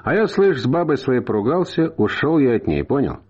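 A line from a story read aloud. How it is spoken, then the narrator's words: Sighing, sudden confession. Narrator (Russian): вздохнул и неожиданно для самого себя вдруг сказал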